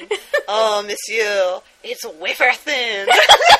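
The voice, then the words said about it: Put-on French accent. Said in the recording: “John Cleese doing a French accent”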